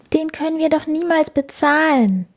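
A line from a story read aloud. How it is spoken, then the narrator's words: Sighing. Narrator (German): seufzte Felice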